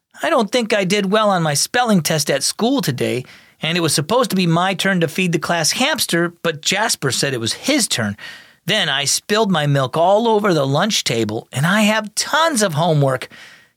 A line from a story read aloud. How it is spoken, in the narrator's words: he sighed